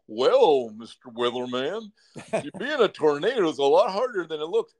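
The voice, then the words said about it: Fake cartoon character voice. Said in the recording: “that's fake. I can tell you right now, that is a fake voice from some like cartoon guy.”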